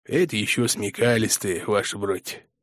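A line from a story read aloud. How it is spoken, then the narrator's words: Grumbling reply. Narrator (Russian): заворчал в ответ околотошный надзиратель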